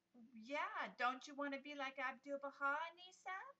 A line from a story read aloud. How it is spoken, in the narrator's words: asked Asma